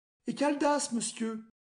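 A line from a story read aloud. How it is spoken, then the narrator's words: Very timid question. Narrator (French): demanda-t-elle bien timidement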